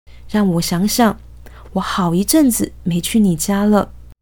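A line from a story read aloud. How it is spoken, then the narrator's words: Wistful. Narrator (Chinese): 郑仁伟很是感叹，继续道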